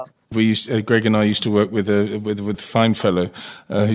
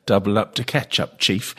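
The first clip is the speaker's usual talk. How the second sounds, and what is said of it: Put-on English pommy accent. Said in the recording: “You said it in the right accent as well. ... Yes, it's a very pommy thing.”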